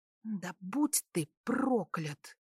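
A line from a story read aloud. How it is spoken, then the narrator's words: Hiss. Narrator (Russian): прошипела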